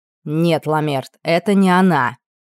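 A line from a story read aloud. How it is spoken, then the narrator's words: Snapping. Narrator (Russian): огрызнулся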